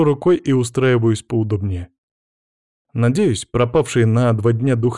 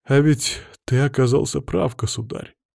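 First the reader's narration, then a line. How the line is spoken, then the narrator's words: Sad sigh. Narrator (Russian): грустно вздохнул Никита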